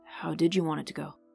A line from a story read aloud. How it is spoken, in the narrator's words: Vivian's deep voice murmured